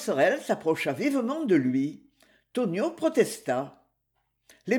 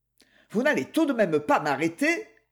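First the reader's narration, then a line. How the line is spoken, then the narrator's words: Harsh. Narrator (French): Nérac fit durement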